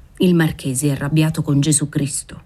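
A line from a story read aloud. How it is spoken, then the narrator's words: Servant, humble but familiar tone. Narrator (Italian): disse il servo con quel tono umile, ma familiare con cui il popolo napoletano parla spesso della divinità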